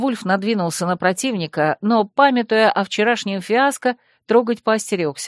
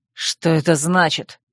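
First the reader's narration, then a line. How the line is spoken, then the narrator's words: Growling. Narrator (Russian): рыкнул Койл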